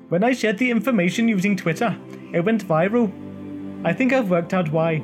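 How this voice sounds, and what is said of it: Attempted Icelandic Australian accent. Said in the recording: “I'm not quite sure how you do an Icelandic Aussie accent, but here goes.”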